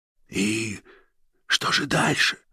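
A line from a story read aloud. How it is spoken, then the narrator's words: Whisper. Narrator (Russian): шепотом проговорил фон Шпинне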